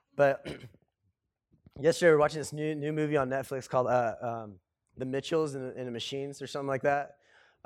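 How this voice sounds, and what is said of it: Hoarse, congested voice. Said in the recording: “I don't know if you can tell, I'm getting over a cold right now. That's why I brought my sexy voice to church.”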